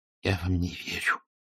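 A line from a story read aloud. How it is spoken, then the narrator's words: Near-whisper, dry lips. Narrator (Russian): Тихо, чуть не шепотом, ответил Лангер, с трудом разлепляя пересохшие губы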